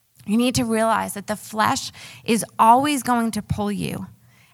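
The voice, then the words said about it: New York accent. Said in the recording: “my New York accent still comes out from time to time ... I actually grew up on Long Island”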